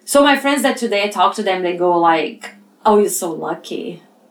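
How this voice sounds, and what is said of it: Brazilian-accented English. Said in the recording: “I'm not American ... Brazil ... you guys bear that with my accent”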